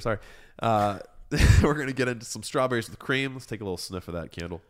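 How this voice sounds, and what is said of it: Hoarse, fading voice. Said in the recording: “Kind of losing my voice here.”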